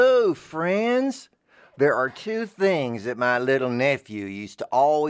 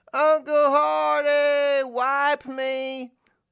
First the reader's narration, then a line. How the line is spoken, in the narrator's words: He'd either yell